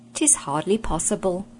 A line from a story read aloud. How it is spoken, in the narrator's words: said the prince